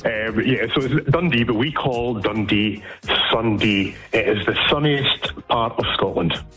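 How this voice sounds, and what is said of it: Dundee Scottish accent. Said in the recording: “I'm from Broughty Ferry in Dundee. It's the posh part, okay, as you can tell by my accent.”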